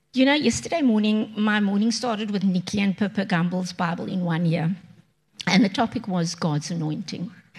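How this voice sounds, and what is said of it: Hoarse voice recovering from laryngitis. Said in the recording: “I'm recovering from laryngitis”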